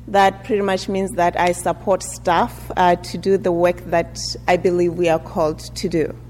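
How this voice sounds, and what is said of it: African-accented English. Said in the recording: “I also have an accent.”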